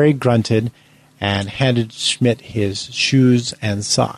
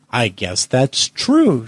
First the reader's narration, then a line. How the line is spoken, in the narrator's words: Schmidt said